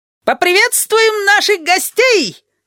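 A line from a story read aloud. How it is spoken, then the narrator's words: Loud yell. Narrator (Russian): завопил Табаки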